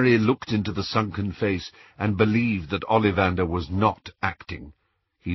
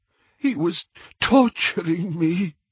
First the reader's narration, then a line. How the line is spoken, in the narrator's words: he gasped